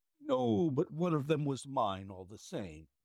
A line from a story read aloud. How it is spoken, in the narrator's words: whined the little man